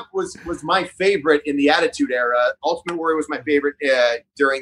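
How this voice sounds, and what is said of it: Usual voice. Nothing is said of it.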